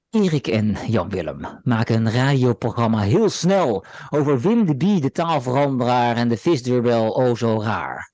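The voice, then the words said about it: Dutch with heavy English accent. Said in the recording (Dutch): “ik het nu live voordragen met een heel erg Engels accent”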